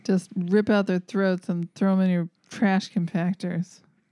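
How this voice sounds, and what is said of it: Gordon Gekko impression, New Jersey accent. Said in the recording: “Such a dead-on Gordon Gekko ... Just have that little, like, New Jersey accent”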